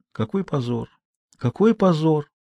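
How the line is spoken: Mutter. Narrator (Russian): пробормотала мама Жанна

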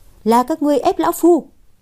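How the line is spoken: Loud shout. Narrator (Vietnamese): Phạm Trường Tử hét lớn một tiếng

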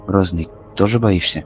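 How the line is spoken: Quiet question. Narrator (Russian): Никита тихо спросил меня

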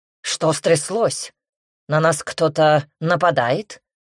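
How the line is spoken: Very rude question. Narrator (Russian): Весьма грубо интересуется лорд Сент-Мор

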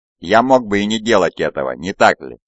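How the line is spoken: Plain. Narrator (Russian): спросил Люций

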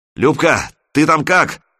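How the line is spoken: Shout. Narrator (Russian): крикнул он в люк

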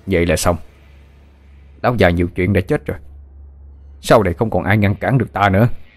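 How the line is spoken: Harsh growling speech. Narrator (Vietnamese): Tên Kiên sững người một chút rồi gằn giọng nói

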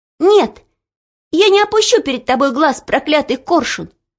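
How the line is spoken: Sudden shout. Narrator (Russian): вдруг крикнула она

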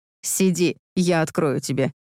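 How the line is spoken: Scoffing. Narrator (Russian): хмыкнул

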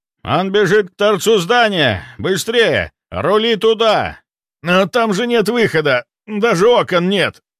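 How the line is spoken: Urgent shout. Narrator (Russian): Выкрикнул курильщик

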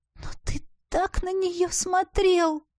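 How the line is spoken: Hurt, moaning voice. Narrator (Russian): Простонала я, не в силах полностью исторгнуть обиду, занозой засевшую в сердце

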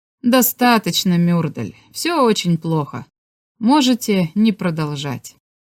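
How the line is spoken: Soft laugh, then speaking. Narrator (Russian): Шварц тихонько засмеялся и сказал

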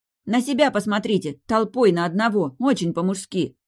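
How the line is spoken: Snapping back. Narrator (Russian): огрызнулась я

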